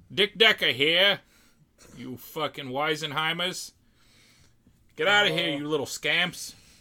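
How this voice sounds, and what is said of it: 1930s private eye voice. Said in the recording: “that sounds like a private eye from the 30s ... I hope he has that accent.”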